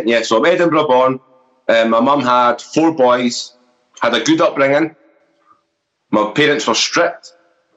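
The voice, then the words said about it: Scottish accent. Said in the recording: “with a Scottish accent.”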